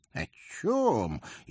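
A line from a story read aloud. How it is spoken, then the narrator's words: Sincerely surprised. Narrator (Russian): искренне удивился коронованный карлик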